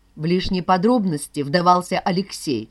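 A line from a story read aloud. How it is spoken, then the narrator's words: Plain. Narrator (Russian): сказала Вера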